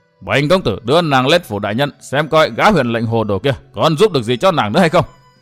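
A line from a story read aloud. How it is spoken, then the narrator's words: Snort, harsh emphatic voice. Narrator (Vietnamese): Gã hừ nhạt một tiếng rồi gằn giọng nói tiếp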